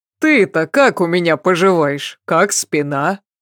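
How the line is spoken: Laughing, teary. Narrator (Russian): Она засмеялась и украдкой промокнула нос

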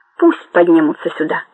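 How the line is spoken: Calm. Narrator (Russian): спокойно сказала Буладзе

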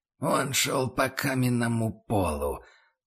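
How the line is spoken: Quiet creak. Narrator (Russian): Проскрипела тихо

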